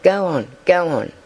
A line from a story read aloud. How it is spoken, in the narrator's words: murmured the girls about her